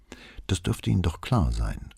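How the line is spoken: Calm answer. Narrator (German): antwortete Brunetti ruhig

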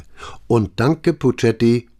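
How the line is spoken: Calling after someone. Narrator (German): rief Brunetti ihm nach

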